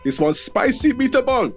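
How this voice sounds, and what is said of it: Shouted, bad Italian accent. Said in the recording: “I will shout out... Missus is Italian. She gets offended by me trying to do the really bad accent”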